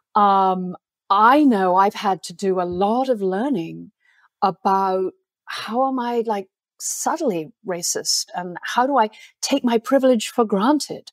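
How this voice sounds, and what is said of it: Plummy upper-class English accent. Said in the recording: “my plummy accent”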